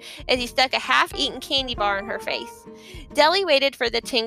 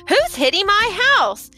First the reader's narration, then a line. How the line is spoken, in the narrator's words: Clarice yelled